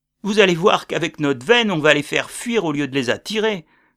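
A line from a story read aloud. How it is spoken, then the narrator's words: Exclaimed. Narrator (French): s'exclama le sergent McMurray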